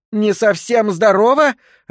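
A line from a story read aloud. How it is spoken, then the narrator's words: Bursting into laughter. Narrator (Russian): расхохоталась она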